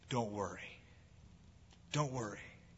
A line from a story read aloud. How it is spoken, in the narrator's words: I told Bob calmly